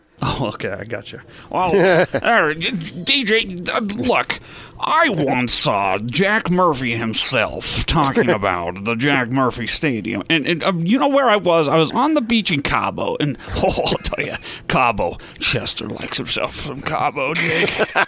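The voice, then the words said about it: Impression of Gordon. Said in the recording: “delivered in your Gordon voice”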